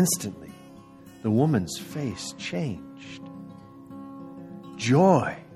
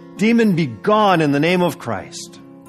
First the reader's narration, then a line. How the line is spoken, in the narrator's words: he shouted